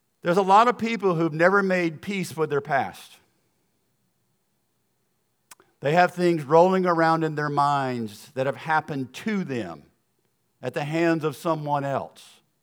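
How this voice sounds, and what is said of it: American Southern accent. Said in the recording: “my accent is going to sound like I'm from the South ... my little accent from the South”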